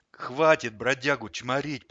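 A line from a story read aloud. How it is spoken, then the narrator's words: Tired hoarse hamster. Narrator (Russian): прохрипел хомяк устало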